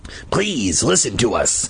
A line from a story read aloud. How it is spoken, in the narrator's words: Hap rasped